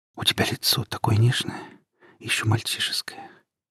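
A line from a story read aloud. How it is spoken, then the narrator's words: Barely audible. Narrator (Russian): сказала она едва слышно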